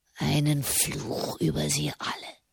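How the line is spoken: Hoarse whisper. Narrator (German): flüsterte heiser

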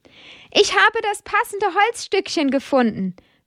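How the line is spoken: Calling out. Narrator (German): ruft er Amadeus zu

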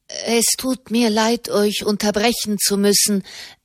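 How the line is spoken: Young person stammering. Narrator (German): stammelte der junge Mensch

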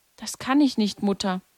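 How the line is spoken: Broken voice. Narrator (German): sagte Lucia mit gebrochener Stimme

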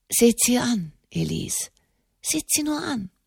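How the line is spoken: Murmur. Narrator (German): murmelte Enemond de Montalier

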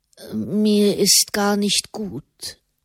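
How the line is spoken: Murmuring. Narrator (German): murmelte Fra Raymond

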